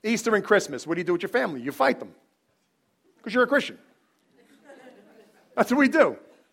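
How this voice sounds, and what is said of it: Loud emphatic Bronx Italian-American speech. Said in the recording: “I'm not yelling, I'm talk like this. This is, I'm from the Bronx. I'm Italian.”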